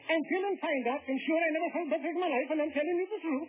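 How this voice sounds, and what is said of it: Speaking in a changed dialect. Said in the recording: “I changed his dialect!”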